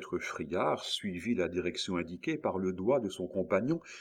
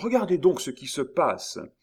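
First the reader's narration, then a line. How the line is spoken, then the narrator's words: Exclaiming. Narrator (French): s'écria Miton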